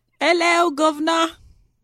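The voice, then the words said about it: Bad put-on British accent. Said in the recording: “that's my bad British accent. ... That was really terrible.”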